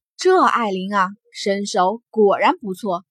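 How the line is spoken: Slight sigh. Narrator (Chinese): 惊鸿微叹

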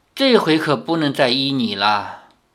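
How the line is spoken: Long sigh, old woman. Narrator (Chinese): 老妇长叹了一声，说

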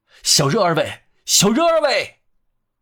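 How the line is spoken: Terrible shrill cry. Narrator (Chinese): 用人间最可怕、最凄厉的声音喊道

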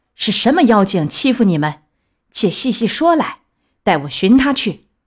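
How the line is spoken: Furious. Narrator (Chinese): 悟空大怒道

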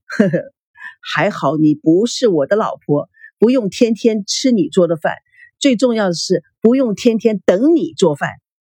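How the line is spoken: Laughing. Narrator (Chinese): 明星嘉宾笑着说

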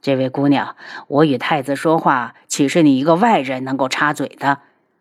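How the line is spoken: Cold, refusing to yield. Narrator (Chinese): 安国公，不想在太子面前认输，冷声的道

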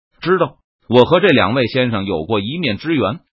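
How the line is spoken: Loud. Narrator (Chinese): 周培公大声说道

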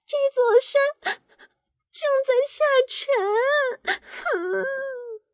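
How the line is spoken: Crying woman. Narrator (Chinese): 昆斯特太太正在哭泣

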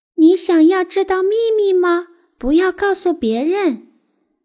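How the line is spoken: Group shouting. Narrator (Chinese): 我们都对着窗外大叫

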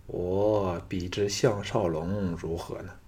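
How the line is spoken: Sighing. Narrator (Chinese): 项少龙叹道

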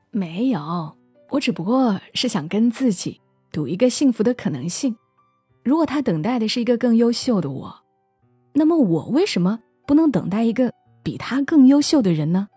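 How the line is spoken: Sly grinning question. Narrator (Chinese): 四国际 坏笑着问

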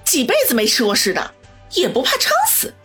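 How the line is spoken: Annoyed. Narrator (Chinese): 恼怒地说道

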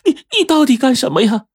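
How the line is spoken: Frightened old woman crying. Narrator (Chinese): 张老太一听，吓得不轻啊，叫道

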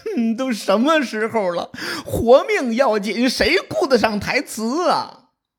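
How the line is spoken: Desperate crying. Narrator (Chinese): 公子胜玩命的哭啊

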